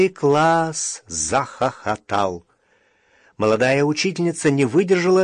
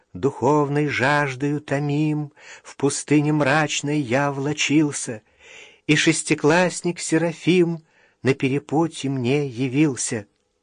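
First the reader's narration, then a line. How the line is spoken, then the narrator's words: Soft singsong voice. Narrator (Russian): Таня начала мягким певучим голосом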